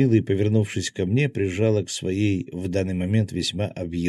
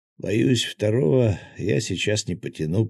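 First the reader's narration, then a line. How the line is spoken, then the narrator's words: Hoarse rasp in ear. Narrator (Russian): прохрипел ей на ухо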